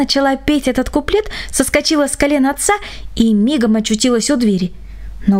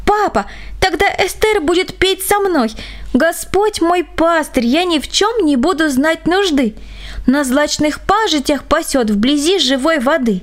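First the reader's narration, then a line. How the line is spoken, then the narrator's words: Excited exclamation. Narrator (Russian): В своем оживлении она захлопала в ладоши и воскликнула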